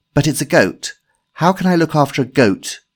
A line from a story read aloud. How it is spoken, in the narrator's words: complained Ashley bitterly